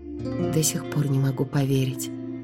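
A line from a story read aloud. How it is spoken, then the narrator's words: Muttering. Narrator (Russian): пробормотала я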